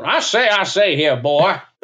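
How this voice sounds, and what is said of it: Cartoon Southern rooster character voice. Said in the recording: “Better Yosemite Sam than Foghorn Leghorn.”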